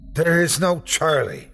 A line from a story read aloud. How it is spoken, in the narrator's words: said, nearly shouting